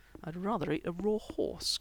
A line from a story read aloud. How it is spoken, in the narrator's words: Chris muttered under his breath